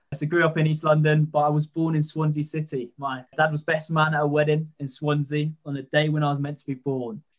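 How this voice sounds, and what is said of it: London accent. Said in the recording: “despite obviously having this fairly London accent”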